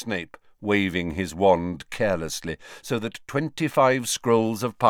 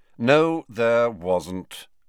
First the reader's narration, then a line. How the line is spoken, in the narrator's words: said Snape in a bored voice